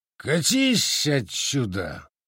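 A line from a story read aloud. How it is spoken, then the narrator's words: Roared. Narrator (Russian): взревел Цзиньлун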